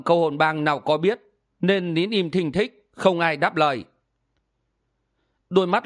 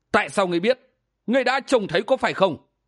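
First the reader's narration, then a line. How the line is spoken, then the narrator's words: Fierce shout. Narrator (Vietnamese): bang chủ quát lên hung dữ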